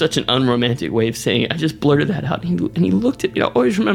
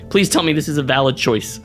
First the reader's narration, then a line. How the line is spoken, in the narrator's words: I just blurted out